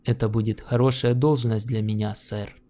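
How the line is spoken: Calm. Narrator (Russian): Он сказал спокойно

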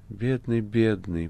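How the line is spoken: Soundless whisper. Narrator (Russian): беззвучно шептала Маргарита

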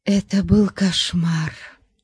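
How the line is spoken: Whisper. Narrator (Russian): прошептала Тамарис

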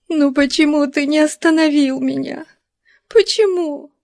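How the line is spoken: Sobbing girl. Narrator (Russian): всхлипывала девушка

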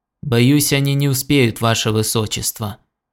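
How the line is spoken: Gloomy reply. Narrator (Russian): мрачно ответил Хелберилл

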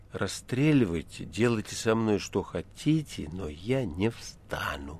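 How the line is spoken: Languid barely audible voice. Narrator (Russian): Степа ответил бы томным, чуть слышным голосом

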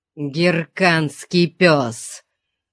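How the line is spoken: Muttered through teeth, barbarian accent. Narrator (Russian): процедил сквозь зубы дикарь с варварским акцентом

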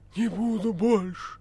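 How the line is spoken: Hoarse rasp. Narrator (Russian): прохрипела голова

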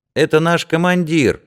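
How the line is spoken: Cheerful child's voice. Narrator (Russian): весело темноволосый малыш

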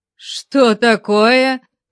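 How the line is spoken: Growl. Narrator (Russian): зарычал Конан

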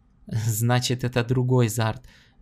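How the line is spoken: Laughing. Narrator (Russian): засмеялся Гордон

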